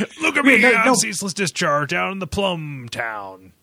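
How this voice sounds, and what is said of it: Good impersonation of a game character. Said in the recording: “good Ceaseless Discharge impersonation”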